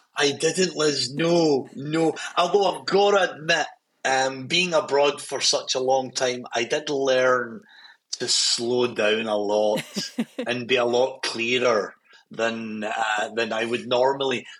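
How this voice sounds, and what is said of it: Scottish accent. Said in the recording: “you didn't lose your Scottish accent”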